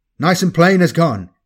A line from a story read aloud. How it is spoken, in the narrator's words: yelled into his voxhorn